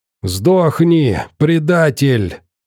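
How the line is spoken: Old man's wheeze. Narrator (Russian): сипел навалившийся на него старик

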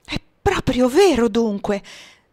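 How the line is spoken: Exclaiming. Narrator (Italian): esclamò Amira

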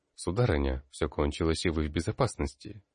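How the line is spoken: Soft. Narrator (Russian): мягко произнес

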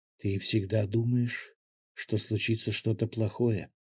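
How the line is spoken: Quiet speech. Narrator (Russian): тихо проговорила Мила

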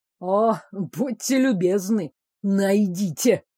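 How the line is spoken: Snorting. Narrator (Russian): Герцог хмыкнул

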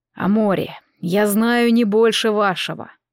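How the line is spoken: Young man, weary repetition. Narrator (Russian): устало повторял молодой Аэр

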